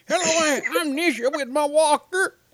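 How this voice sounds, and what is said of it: Put-on old lady voice. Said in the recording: “could you do the show in like an old lady voice today?”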